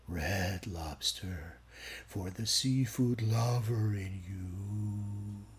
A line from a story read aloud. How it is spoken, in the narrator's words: the narrator practically purrs